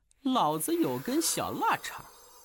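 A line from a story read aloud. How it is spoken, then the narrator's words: Chanting. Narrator (Chinese): 吟唱了一句令在场众人哭笑不得的魂咒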